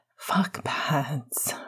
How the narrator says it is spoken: Remus breathed

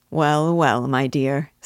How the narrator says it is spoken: said her father, with a quiet laugh

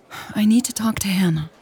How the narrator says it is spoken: sighed

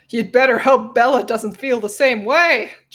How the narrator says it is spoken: Jacob scoffed

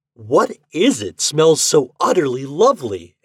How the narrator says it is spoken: exclaimed the king, in a rapture

